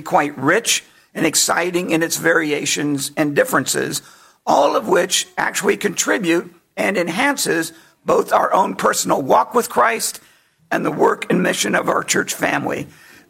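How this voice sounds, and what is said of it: Strained, fading hoarse voice. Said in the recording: “I'm losing my voice earlier and earlier each time”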